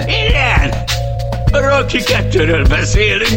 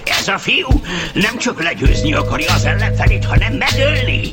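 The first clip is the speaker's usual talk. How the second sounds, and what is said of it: Impression of Burgess Meredith. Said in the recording (Hungarian): “én vagyok Burgess Meredith ... Csak így tudom utánozni Burgess-t.”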